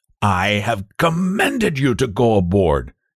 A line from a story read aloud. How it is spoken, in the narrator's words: screamed in Portuguese